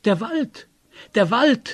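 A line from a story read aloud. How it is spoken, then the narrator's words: Joyful exclamation. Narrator (German): rief Semjon erfreut aus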